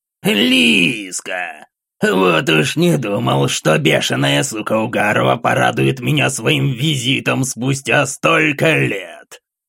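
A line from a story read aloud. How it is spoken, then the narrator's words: Hoarse voice breaking silence. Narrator (Russian): Его хриплый голос разорвал тишину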